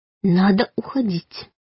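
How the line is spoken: Mouthed silent whisper. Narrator (Russian): шепнула одними губами

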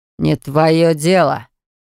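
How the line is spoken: Reluctant, through gritted teeth. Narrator (Russian): повторил мужчина и словно нехотя процедил

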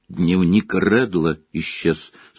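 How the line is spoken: Dejected voice. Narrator (Russian): сказал он упавшим голосом

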